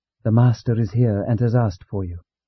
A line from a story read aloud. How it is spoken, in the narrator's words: Martha whispering to her sister, said